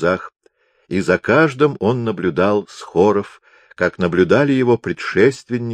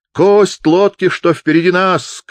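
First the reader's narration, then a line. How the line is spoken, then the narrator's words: Shouting. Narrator (Russian): кричали они, бывало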